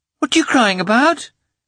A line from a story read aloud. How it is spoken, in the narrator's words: He exclaimed in a fretful voice